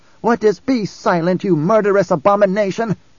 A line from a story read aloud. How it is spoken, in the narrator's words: Jessica snapped